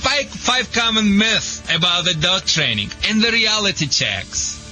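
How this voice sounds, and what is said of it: Speaks English with an accent. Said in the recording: “Sorry for my accent.”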